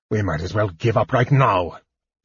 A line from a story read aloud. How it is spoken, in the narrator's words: he snarled